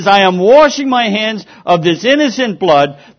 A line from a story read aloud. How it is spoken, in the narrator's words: shouted all the more